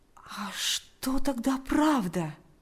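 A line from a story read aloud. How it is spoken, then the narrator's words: Quiet question. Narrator (Russian): тихо спросил Павел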